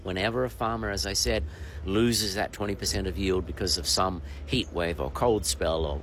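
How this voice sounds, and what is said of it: Australian accent. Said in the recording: “People will know from your accent, you're Australian”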